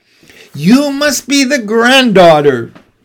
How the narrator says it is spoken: she squeals

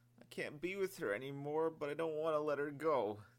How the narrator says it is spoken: the sergeant sobbed

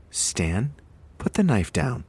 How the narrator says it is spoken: Donna calmly ordered

